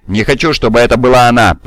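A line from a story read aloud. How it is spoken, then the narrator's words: Growl. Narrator (Russian): прорычал Кел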